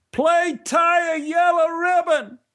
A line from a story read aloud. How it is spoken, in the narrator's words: The drunken man shouted out again